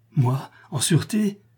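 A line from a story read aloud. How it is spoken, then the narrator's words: Exclamation. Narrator (French): s'écria Eutrope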